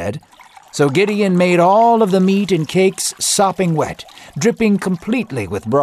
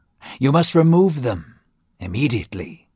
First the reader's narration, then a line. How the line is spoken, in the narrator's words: God whispered